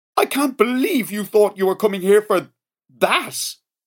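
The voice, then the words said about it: Highly outraged voice. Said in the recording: “In a highly outraged voice.”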